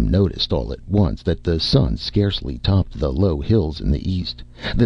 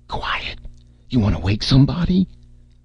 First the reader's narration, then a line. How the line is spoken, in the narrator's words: Red kept to his croaking whisper